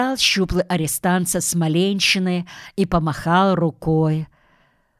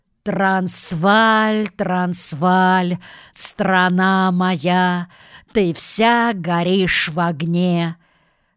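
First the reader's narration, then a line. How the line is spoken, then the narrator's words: Loud group singing behind. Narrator (Russian): Дружно и громко запели позади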